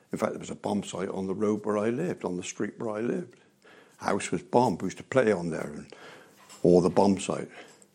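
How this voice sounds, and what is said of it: Bristolian English accent. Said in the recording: “I'm a Bristolian, you might tell from my accent.”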